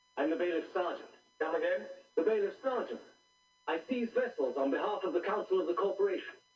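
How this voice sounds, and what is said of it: Liverpool accent. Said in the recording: “He's got a Liverpool accent or something, too.”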